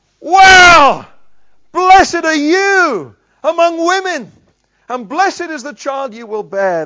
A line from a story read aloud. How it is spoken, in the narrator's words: Elizabeth shouts